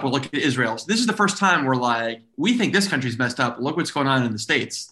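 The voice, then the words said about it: Texan American accent. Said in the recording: “This isn't a fake American accent you're doing... this is how I talk. Yeah. I sound very Texan.”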